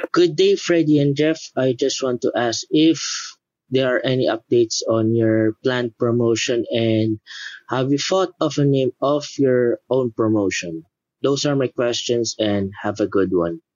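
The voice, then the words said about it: Filipino-accented English. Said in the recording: “That sounds like a Philippine accent, man. I love your voice. You sound awesome”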